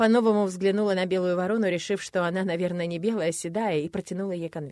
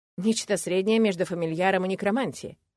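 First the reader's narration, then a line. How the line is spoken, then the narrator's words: Amused snort. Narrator (Russian): хмыкнула я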